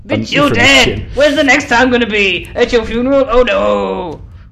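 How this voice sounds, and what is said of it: Over-the-top wrestler-style shouting. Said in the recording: “You sound like a really bad 90s wrestler.”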